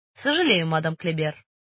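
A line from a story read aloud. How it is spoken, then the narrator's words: Dry, curt. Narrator (Russian): сухо ответил сыщик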